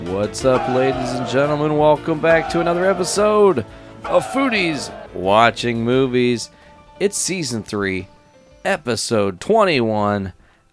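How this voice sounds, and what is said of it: Energetic game show host delivery. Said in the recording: “You sound like a ... Game show host today.”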